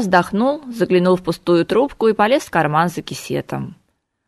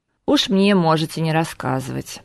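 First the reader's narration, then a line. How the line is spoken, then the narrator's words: Grumbled. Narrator (Russian): проворчал Макс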